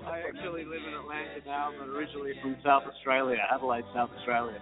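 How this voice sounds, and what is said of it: Noticeable foreign accent. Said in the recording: “you got an accent.”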